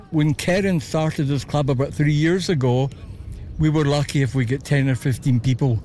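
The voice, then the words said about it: Scottish Glasgow accent. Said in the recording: “I couldn't help but notice your accent. ... Originally from Glasgow.”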